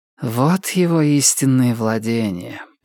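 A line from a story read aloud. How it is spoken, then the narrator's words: Mutter. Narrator (Russian): пробормотала охотница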